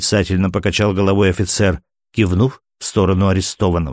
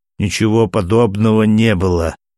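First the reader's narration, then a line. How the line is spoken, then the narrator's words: Spoken through clenched teeth. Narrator (Russian): сквозь зубы проговорил дежурный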